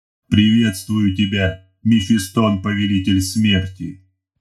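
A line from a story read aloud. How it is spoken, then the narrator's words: Booming mechanical voice. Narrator (Russian): прогремел механический голос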